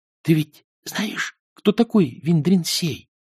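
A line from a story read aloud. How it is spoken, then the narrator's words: Whispering. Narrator (Russian): прошептал Эрик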